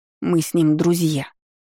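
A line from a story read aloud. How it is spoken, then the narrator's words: Grumbling. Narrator (Russian): проворчала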